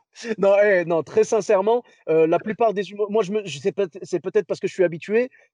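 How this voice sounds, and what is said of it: French accent from France. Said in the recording (French): “tu as un accent euh, français”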